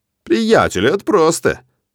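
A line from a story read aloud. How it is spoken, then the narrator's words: Cheerful reply. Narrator (Russian): бодро отвечает Мэтт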